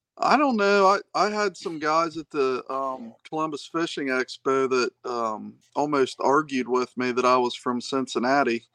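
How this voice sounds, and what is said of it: Hillbilly twang, Appalachian-sounding accent. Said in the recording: “Maybe it's just my hillbilly twang.”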